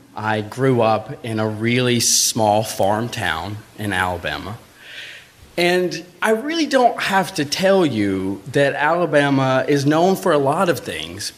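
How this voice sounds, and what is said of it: Southern Alabama accent. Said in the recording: “if you hear an accent, it's because I'm from Alabama.”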